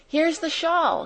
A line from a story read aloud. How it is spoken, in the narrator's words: she cried